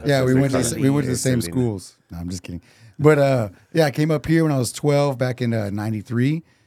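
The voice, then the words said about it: Thick regional accent. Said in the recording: “I noticed the accent... It's really it's really thick... It is really thick”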